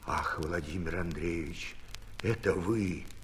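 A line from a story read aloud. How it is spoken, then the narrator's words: Whispered reply. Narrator (Russian): отвечал Архип пошепту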